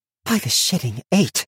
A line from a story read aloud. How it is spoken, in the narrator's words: breathed Fern